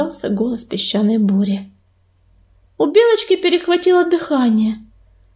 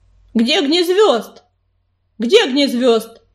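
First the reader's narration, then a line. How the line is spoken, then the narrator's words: Shouted. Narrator (Russian): крикнул Ежевика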